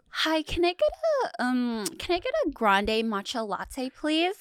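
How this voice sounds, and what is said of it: Valley girl accent. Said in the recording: “That sounds exactly like a valley girl.”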